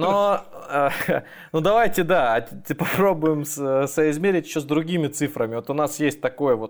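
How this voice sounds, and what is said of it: Usual voice. Nothing is said of it.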